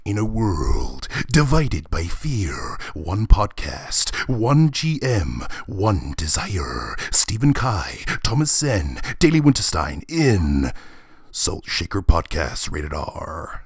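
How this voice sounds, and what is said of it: Dramatic movie trailer narrator voice. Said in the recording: “do a quick movie voice ... He was trying to do that voice as well”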